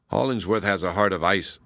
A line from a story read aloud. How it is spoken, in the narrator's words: said I bitterly